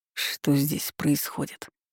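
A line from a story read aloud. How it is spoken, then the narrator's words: Sleepy. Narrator (Russian): сонно произнес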